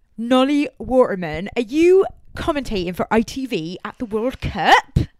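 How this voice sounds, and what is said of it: Put-on unidentified accent. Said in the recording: “I don't know what that accent was.”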